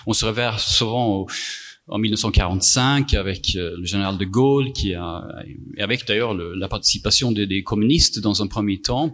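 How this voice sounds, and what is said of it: Swedish accent in French. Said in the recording (French): “mon accent bizarre ... Je suis suédois”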